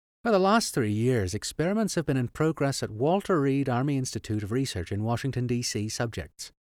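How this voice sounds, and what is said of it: Put-on Irish accent. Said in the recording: “we're doing an Irish accent”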